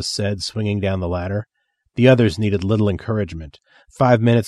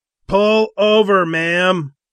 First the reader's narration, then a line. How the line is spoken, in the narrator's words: one of the bikers yelled